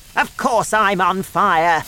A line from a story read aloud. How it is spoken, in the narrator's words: she shouted